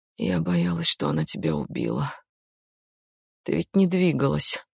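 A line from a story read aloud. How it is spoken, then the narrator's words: Mumbling. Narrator (Russian): бормотала Дженни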